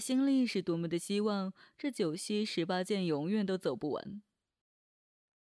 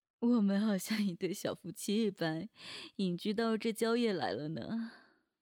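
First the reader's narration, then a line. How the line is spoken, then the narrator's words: Happy inner laugh. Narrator (Chinese): 快乐的他冲着心里笑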